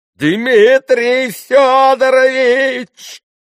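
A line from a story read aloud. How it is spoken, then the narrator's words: Sudden strange-voiced yell. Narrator (Russian): завопил вдруг каким-то не своим голосом Федор Павлович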